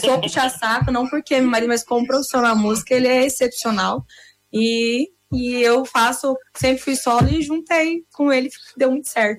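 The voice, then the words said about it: Noticeable regional accent. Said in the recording (Portuguese): “Você é paraguaia? ... tá com sotaque, mano. Você tá com ... sotaque. ... Tá com sotaque, né?”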